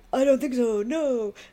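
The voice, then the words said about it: Robin Williams impression. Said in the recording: “good Robin Williams impression”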